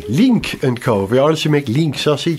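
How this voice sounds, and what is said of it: Scandinavian accent. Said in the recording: “I've got the Scandinavian accent.”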